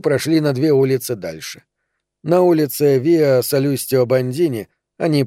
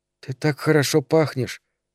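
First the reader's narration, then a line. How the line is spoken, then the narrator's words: Whisper. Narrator (Russian): сказала она шепотом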